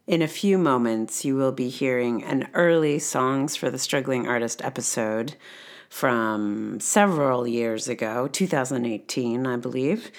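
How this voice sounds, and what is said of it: Unwell, rough-sounding voice. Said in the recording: “this is what my voice sounds like today. And I feel just about as good as you might imagine based on the sound of this voice.”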